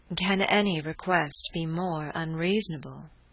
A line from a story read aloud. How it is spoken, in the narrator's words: she replied